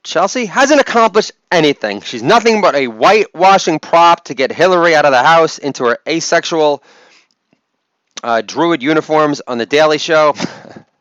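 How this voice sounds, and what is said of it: Imitated voice of a jealous writer. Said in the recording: “my impersonation of the jealous op-ed writer”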